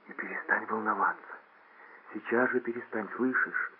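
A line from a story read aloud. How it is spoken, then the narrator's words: Whisper in ear. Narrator (Russian): прошептала она ему на ухо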